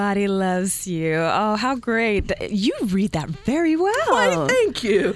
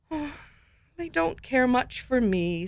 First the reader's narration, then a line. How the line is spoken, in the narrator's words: said Alexander sadly